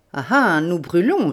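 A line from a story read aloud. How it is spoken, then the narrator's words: Sneering laugh. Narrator (French): ricana Lupin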